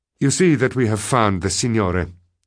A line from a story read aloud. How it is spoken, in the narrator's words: I tried to say in a natural voice